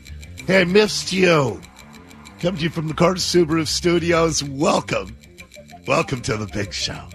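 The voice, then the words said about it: Impaired, not-normal speaking voice. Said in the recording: “my voice isn't back ... I know it's annoying to listen to somebody with a voice like this ... I just came home with this last night”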